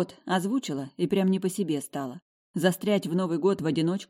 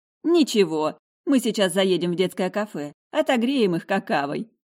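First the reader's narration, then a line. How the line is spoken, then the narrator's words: Mother's laughing chuckle. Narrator (Russian): хохотнула мама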